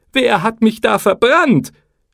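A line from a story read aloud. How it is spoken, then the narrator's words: Shouting. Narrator (German): Er schrie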